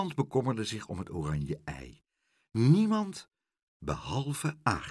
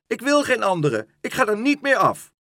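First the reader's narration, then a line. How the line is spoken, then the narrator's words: Shrieked. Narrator (Dutch): gilde Leentje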